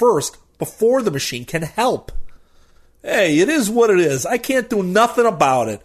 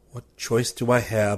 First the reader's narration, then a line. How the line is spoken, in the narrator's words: I mutter